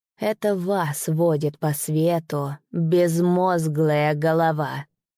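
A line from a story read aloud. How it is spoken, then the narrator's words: Hiss. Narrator (Russian): прошипел Исмаил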